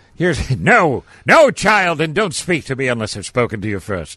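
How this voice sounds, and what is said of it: Put-on posh English accent. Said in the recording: “I get an English accent... I'm on Downton Abbey.”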